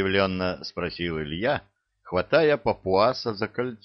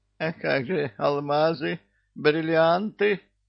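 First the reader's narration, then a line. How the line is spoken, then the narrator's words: Whining. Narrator (Russian): захныкал Чебурашка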